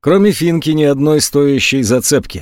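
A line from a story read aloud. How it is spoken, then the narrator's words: Sighing. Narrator (Russian): вздохнул тот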